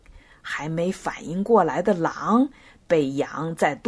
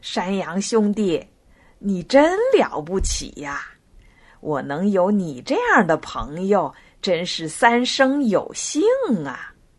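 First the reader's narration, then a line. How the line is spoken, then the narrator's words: Smiling. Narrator (Chinese): 笑着说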